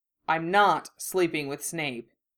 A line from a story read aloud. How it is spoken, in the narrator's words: said firmly